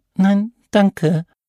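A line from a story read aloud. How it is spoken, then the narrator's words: Squeaky voice. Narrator (German): piepste Alex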